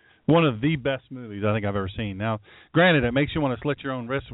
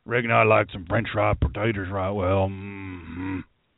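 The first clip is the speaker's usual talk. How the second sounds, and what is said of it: Billy Bob Thornton Sling Blade impression. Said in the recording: “my imitation of Billy Bob Thornton on Sling Blade”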